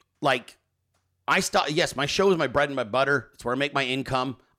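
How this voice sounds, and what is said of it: Damaged, strained-sounding voice. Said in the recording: “why is ... voice all fucked up? ... that's why my voice is fucked”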